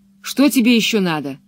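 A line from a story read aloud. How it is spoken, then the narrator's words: Angry question. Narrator (Russian): уже совсем сердито спросил он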